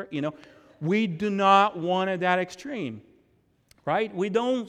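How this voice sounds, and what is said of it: Usual voice. Nothing is said of it.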